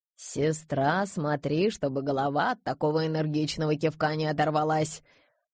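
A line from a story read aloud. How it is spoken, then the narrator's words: Old woman's wry snort. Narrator (Russian): хмыкнула бабушка Кнарик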